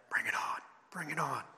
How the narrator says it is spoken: him saying under his breath

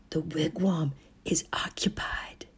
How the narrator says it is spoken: His eyes were wide with astonishment, and he whispered dramatically

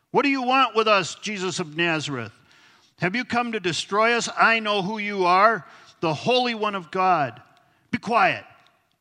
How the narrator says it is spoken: said Jesus sternly

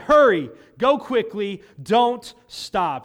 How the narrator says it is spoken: he shouted

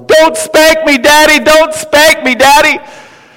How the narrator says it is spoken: she yells at the top of her lungs

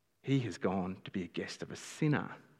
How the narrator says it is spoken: All the people began to mutter

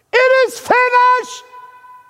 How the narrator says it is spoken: he cries out

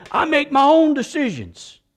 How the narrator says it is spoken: with a southern drawl and a deep voice

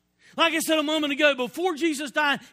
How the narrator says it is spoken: he screamed out

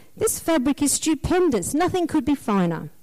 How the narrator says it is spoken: Desperately worrying about what people might think, the emperor, in complete denial, said

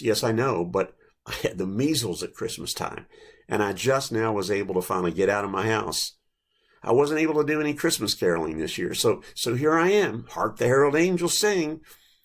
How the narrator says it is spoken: the little boy replied in an exciting voice

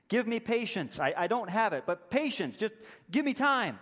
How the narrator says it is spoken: the servant just begs and pleads with the king

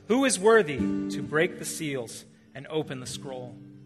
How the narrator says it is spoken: a mighty angel proclaiming in a loud voice

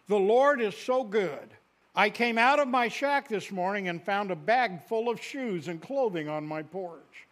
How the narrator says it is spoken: he exclaimed

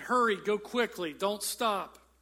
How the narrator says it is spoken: Then he shouted

